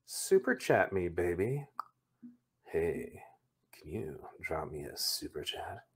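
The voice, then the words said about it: Smooth, velvety radio voice. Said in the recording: “I'll talk to you in my velvet voice.”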